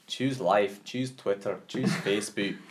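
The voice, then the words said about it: Attempted Scottish accent. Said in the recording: “My attempt at a Scottish accent.”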